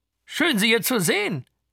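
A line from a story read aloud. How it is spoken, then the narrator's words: Sudden astonished exclamation, gentleman. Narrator (German): rief einer der Herren plötzlich erstaunt aus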